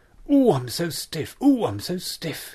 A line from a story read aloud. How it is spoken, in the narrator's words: groaned